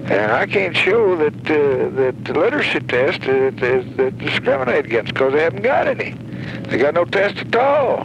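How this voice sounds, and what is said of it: Strong accent, hard to understand. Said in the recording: “strong accent... kind of hard to, you know, decipher everything that he's saying”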